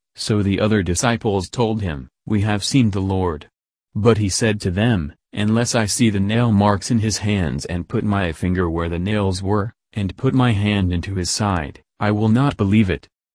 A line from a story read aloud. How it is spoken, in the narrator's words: Thomas said